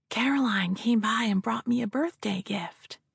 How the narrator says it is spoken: Penny whispered

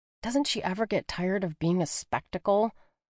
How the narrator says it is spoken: Leah grumbled under her breath

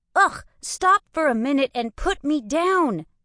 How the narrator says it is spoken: I pleaded

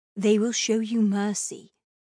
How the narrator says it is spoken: my mother said

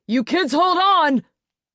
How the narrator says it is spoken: He yelled

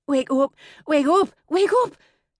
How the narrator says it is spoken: gasped to herself

